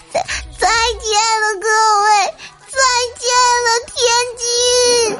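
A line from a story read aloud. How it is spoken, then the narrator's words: Child's desperate wailing shouts. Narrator (Chinese): 小朋友用撕心裂肺甚至绝望的哭腔持续高呼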